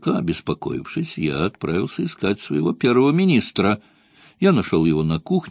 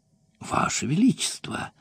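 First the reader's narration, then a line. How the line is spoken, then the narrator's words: Ingratiating. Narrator (Russian): сказал он вкрадчиво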